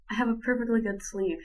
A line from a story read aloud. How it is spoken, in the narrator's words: he said, with a weak laugh